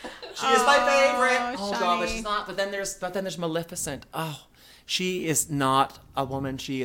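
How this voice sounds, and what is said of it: Usual voice. Nothing is said of it.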